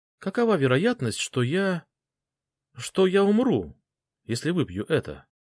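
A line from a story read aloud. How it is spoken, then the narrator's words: Unnervingly calm. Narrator (Russian): Фэл говорила слишком спокойно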